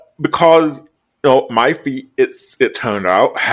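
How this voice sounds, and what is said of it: Usual voice. Nothing is said of it.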